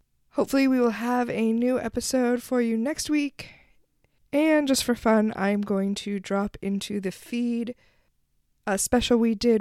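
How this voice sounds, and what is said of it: Sick-sounding voice. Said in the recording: “can hear it in my voice, ... I have finally been felled by the COVID”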